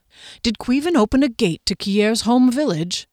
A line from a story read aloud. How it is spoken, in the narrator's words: Derry asked urgently